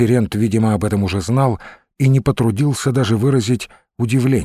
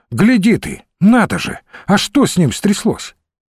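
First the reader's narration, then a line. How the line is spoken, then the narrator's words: Exclamation. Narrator (Russian): Иван Сергеевич воскликнул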